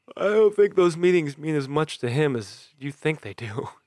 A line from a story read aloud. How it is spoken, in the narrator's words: James yawned